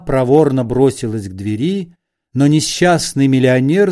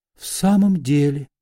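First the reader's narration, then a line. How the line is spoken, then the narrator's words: Girl whispering. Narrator (Russian): прошептала девушка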